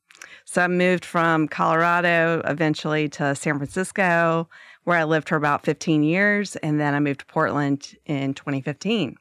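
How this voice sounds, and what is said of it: Southern American accent. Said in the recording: “I still got this accent. It throws people off. ... I'm liberal Southern Belle. ... I can't lose the accent.”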